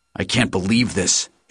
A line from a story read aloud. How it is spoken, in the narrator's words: H growled